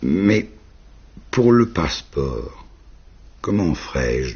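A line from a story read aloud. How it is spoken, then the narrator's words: Plain. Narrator (French): demanda-t-elle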